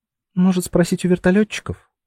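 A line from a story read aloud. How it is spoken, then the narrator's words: Timid suggestion. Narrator (Russian): робко предложила Анюта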